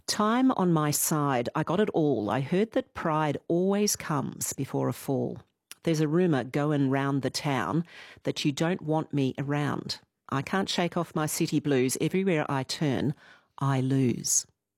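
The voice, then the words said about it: Mock-serious reading voice. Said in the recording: “Serious voice.”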